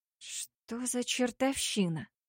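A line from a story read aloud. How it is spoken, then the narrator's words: Whisper. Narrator (Russian): прошептала она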